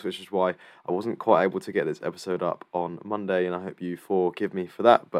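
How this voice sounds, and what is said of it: Voice rough from illness. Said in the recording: “as you might be able to tell from my voice, I'm still just about recovering from illness”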